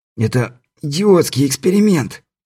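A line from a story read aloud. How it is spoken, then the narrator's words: Hoarse rasp. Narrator (Russian): прохрипел Стюарт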